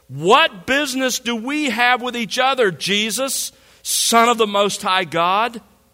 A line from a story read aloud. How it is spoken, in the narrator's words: shouting with a loud voice, he said